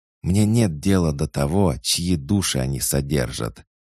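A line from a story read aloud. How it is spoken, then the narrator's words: Sharp hiss. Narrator (Russian): резко прошипел Шоршех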